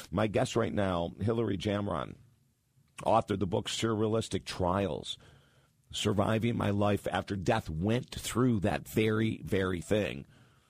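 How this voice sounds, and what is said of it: Hoarse, worn-out voice. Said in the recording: “my voice is really beat up today”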